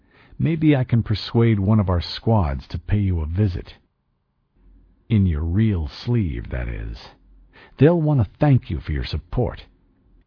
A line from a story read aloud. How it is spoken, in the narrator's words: I said evenly